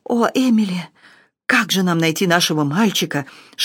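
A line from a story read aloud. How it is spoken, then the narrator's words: Whispered. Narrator (Russian): шептал он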